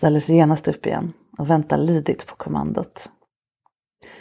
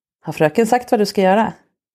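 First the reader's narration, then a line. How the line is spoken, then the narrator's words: Stern question. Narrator (Swedish): jag frågar strängt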